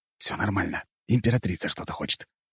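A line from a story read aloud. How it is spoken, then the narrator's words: Whisper. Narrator (Russian): прошептав встревоженной Анне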